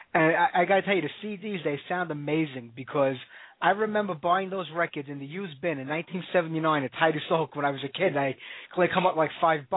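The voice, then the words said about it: Brooklyn New York accent. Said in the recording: “I love the New York accent you got going on there. ... you never lose that accent. It may go away a little bit, but there's always a part of it there.”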